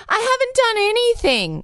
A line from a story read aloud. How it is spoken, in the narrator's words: Quitter sobbed in court and shouted repeatedly